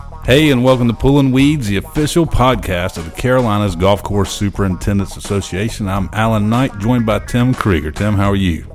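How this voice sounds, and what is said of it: Polished radio announcer voice. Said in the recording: “does his radio voice ... on the intro, hey, welcome in. It's like this whole different dude comes out of you”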